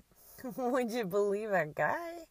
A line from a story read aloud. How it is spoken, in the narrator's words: Still laughing at herself